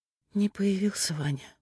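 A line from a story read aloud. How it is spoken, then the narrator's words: Grief-stricken sigh. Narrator (Russian): сокрушенно вздохнула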